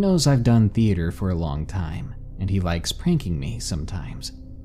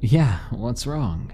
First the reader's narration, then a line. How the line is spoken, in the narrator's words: the other chuckled, not really taking my distress as seriously